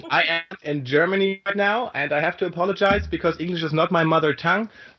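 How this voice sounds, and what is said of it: Foreign accent in English. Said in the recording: “A lot of us like the accent. ... Dawn is already drooling just on the accent.”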